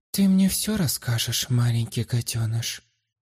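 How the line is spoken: Even, matter-of-fact voice. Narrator (Russian): Ровным голосом произнесла, будто занималась подобным непотребством каждый божий день

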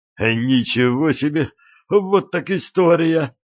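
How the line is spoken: Exclamation after deep sigh. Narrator (Russian): он глубоко вздохнул, воскликнул

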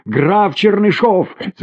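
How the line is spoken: Shouting. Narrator (Russian): закричала она

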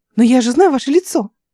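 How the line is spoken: Young woman exclaiming. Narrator (Russian): снова воскликнула девушка

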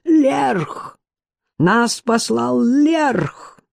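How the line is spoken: Howl, then muffled shout. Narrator (Russian): Человек взвыл, после чего глухо выкрикнул

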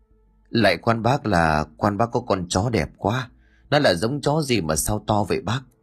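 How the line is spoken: Honest reply. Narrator (Vietnamese): Ông Lẫm rít điếu thuốc lào rồi thật thà đáp

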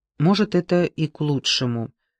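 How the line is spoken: Gloomy reply. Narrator (Russian): мрачно ответил

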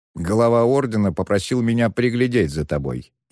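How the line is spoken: Snide. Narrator (Russian): ехидно поведал он Шену

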